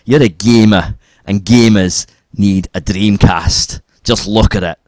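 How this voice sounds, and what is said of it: Put-on Scottish accent. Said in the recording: “Scottish guy ... That's better.”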